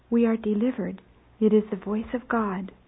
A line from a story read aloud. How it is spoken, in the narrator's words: with sweet and solemn whisperings they say to one another